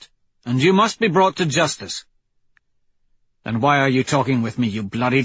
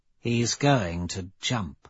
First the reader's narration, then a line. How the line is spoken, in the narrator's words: Aja says quietly to Cassius